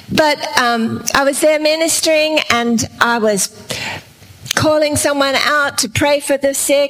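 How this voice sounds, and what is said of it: Australian English accent. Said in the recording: “We are from Australia. That's why my accent's a little different to Tom Jones's.”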